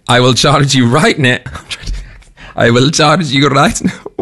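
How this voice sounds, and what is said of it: Put-on Austrian German accent. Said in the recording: “that an Austrian German accent you're trying there?”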